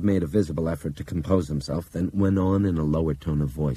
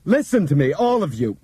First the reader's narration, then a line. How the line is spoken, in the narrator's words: Bob shouted